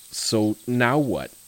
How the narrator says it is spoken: He took a deep breath, breathing out slowly as he looked back to Tim and asked

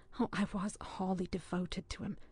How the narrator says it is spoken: went on Keith's mother, in the same sweet, shaken voice

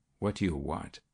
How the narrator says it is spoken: Yet her voice was steady, almost unconcerned, when she asked

